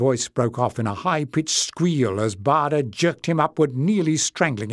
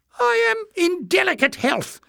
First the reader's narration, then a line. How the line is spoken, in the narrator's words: Jinx whimpered